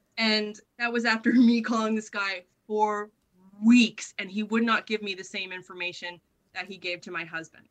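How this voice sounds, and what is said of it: Canadian accent. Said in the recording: “That accent must stick out like dog balls in Western rural Tasmania. Like, is there anyone else from Canada in the area?”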